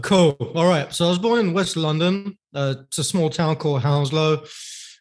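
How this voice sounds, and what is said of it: English accent. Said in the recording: “cool young guy from cool England with a cool accent”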